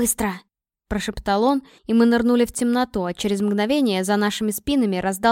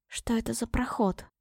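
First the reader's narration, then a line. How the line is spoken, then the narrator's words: Barely audible whisper. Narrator (Russian): едва слышно прошептала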